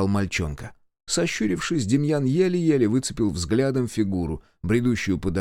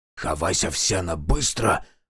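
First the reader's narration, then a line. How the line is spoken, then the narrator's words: Urgent hiss. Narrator (Russian): прошипел знаток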